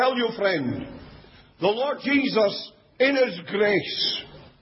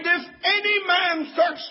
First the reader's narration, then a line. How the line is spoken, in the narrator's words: Jesus cried